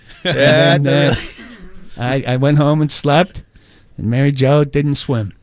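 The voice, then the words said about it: Put-on Boston accent. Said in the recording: “That's where the Boston accent takes me.”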